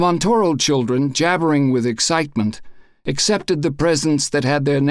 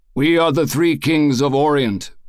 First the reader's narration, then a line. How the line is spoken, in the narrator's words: boomed Eduardo